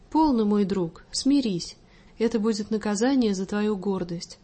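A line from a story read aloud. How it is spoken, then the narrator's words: Gentle motherly. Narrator (Russian): ласково промолвила матушка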